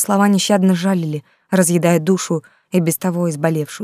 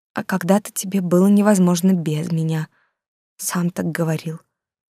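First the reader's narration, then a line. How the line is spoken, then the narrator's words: Quiet. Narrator (Russian): тихо произнесла Юлька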